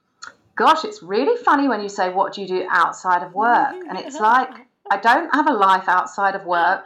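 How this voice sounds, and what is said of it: British English accent. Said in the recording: “She has the most beautiful, cute little accent. ... I'm at Queen's English. I'm in London.”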